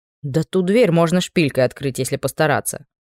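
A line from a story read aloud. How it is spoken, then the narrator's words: Snorting. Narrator (Russian): фыркнул Анри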